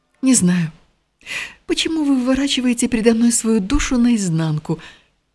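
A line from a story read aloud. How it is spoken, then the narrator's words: Annoyed exclamation. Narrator (Russian): воскликнула она с досадой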